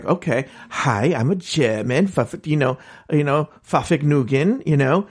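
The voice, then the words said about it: Put-on German accent. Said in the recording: “do a German accent”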